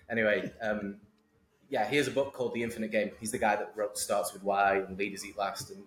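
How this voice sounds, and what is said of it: English accent, polished. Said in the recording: “Hopefully mine's still English enough ... Yours is way more polished ... stop mumbling”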